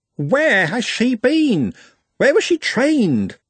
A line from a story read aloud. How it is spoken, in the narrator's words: He, or conceivably she, squeaked